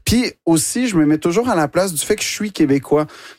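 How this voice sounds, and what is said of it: Quebec French accent. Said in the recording (French): “l'accent québécois ... tu le dis avec cet accent”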